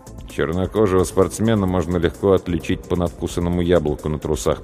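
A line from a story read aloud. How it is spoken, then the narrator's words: Muttering. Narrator (Russian): пробормотал я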